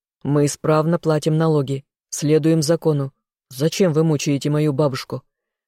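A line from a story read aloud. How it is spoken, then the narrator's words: Growling young man. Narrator (Russian): рыкнул юноша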